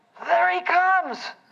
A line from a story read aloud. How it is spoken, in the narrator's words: Herb Chalmers yelled